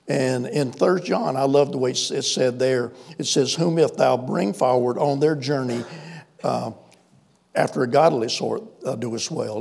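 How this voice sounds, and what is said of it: Southern American accent. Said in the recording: “you can tell by my voice I'm not from New York City... we grew up out here in South Carolina, so I cultivate this Southern accent”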